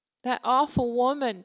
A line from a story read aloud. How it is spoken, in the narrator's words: Bexley said with a sob, and then a laugh